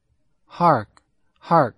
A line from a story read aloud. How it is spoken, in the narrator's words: cried a score of voices